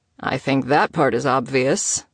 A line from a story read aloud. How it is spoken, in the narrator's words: Theodore grumbled